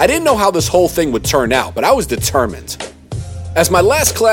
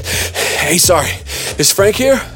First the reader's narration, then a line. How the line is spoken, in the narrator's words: Dripping wet and panting, I said